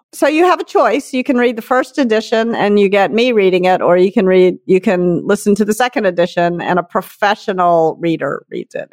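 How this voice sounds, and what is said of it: Nasal Southern twang. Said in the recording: “this is a nasal twang situation that we have going on here ... In this voice ... I was all Southern. I grew up in Memphis.”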